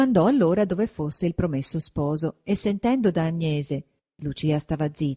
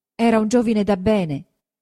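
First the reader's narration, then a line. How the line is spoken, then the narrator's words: Blushing but steady voice. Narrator (Italian): disse Lucia facendo il viso rosso ma con voce sicura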